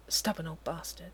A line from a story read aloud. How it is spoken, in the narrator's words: he mutters